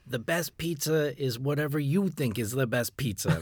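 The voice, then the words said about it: Imitation of Chris Bianco's accent. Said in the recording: “my imitation... Great accent... Now, that's good.”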